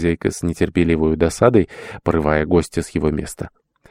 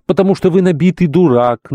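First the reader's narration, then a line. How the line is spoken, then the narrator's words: Furious shouting. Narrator (Russian): кричала в бешенстве мадам Безюкина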